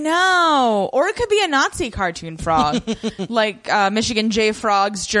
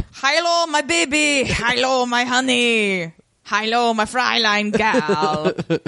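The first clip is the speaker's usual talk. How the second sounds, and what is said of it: Sung mock German accent. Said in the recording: “That wasn't my best German. ... It's hard to sing and do a German accent”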